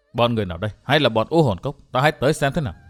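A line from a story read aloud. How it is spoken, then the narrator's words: Muttered. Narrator (Vietnamese): Thạch Kiếm Cửu lẩm bẩm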